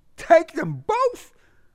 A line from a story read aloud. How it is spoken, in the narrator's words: Buddy broke into a laugh